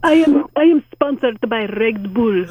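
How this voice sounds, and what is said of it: Put-on Russian accent. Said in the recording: “Why are you suddenly making him Russian? ... So you have a mixed sort of accent.”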